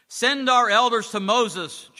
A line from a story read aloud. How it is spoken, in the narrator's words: Joe yelled at the top of his voice